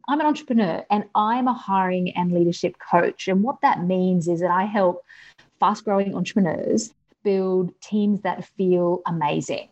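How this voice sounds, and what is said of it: Australian accent. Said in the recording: “As you can tell from my accent, I'm Australian”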